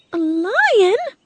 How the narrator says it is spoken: cried the queen

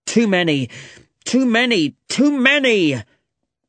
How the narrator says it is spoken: Sherlock shouted angrily

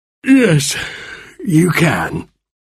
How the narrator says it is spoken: he said sleepily

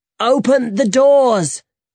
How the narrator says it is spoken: shouted to Elena

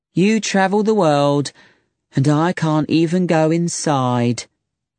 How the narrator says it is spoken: she said sadly

